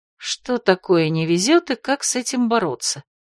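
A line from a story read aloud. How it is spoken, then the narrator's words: Quiet uneasy mutter. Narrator (Russian): пробормотала тихонько Марго, потому что взгляд повелителя не сулил ничего приятного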